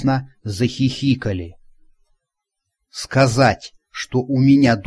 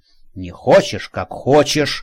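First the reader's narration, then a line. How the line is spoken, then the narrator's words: Grumble. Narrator (Russian): проворчал Женька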